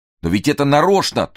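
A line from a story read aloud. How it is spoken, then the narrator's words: Loud shout. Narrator (Russian): тоже закричал он, потому что иначе она бы не услышала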